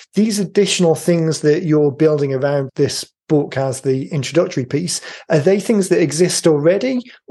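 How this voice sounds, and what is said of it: Hoarse, failing voice. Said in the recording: “my voice is going”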